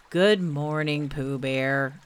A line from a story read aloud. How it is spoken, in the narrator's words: said Eeyore gloomily